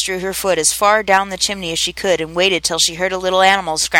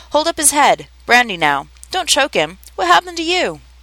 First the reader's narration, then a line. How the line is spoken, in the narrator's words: a little feeble squeaking voice